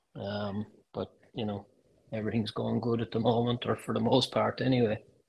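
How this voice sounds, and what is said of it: Strong Irish accent. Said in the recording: “anyone who's Irish or British ... everybody still tells me I've got a strong accent ... when I go back to Ireland, everybody tells me I've got an American accent”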